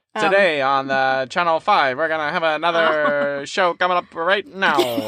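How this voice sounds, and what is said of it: 1940s transatlantic reporter accent. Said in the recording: “a 1940s reporter American accent ... Atlantic, I believe. Transatlantic accent.”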